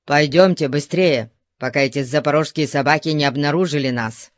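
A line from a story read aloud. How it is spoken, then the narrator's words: Plain. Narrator (Russian): сказал Артабан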